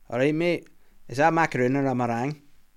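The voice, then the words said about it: Put-on Scottish Glaswegian accent. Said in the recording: “can you tell Willie the joke about macaroons in a Scottish accent? ... a Glaswegian man”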